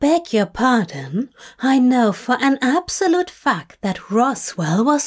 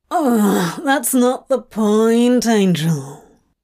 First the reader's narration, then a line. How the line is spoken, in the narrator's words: Crowley groans